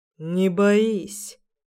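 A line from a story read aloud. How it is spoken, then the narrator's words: Quiet, understanding. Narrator (Russian): говорит тихо, прекрасно понимая мое состояние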